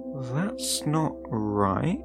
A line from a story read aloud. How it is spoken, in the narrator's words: I had muttered